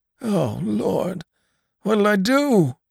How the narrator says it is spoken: groaned the old man

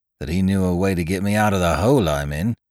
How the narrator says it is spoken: said Bicky gloomily

